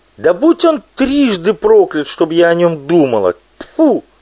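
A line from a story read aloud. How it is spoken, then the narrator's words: Sobbing shout. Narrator (Russian): Пелагея всхлипывала и кричала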